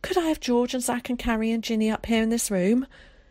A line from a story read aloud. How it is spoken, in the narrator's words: said breathlessly